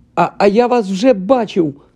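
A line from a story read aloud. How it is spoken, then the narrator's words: Exclaimed. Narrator (Ukrainian): вигукнув Гаррі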